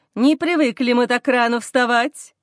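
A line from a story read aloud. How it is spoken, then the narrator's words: Cheerful. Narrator (Russian): веселым тоном отвечает Олег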